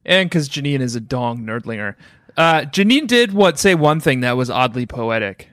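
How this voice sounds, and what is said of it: Usual voice. Nothing is said of it.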